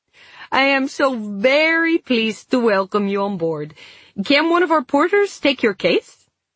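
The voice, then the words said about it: Clipped, unplaceable foreign accent. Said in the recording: “Her accent was clipped in a way I couldn't place”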